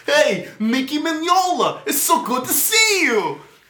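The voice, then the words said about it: Put-on New York dock worker accent. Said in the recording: “like if Fozzie was a dock worker or something... In New York... pull this accent out of my ass”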